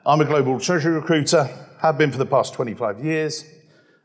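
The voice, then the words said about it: Speaks with a noticeable accent. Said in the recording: “I'm a guy with a funny accent”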